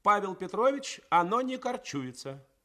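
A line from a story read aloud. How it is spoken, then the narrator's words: Ringing shout. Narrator (Russian): Петя Голубенко звонко крикнул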